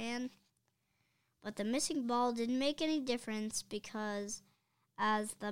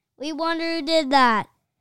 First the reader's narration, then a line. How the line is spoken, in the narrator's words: shouted the fans in the bleachers